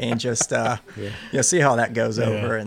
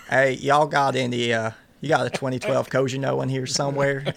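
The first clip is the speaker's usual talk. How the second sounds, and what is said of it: Put-on Southern accent. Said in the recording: “put on the Southern accent.”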